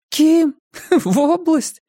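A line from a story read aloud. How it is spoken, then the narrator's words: Laughing. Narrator (Russian): засмеялась Мия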